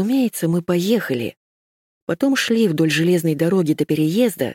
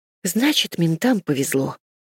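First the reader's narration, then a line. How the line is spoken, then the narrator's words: Sigh. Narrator (Russian): вздохнула Машка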